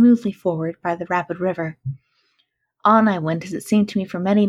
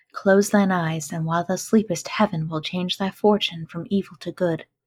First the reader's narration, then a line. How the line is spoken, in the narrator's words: Feeling perfectly bewildered by my sudden return to life and light, murmured to myself in Arabic